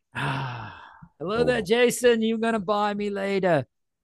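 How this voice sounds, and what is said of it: Put-on Australian accent. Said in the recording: “That's more an Australian accent, not an English accent. ... I'm Australian today.”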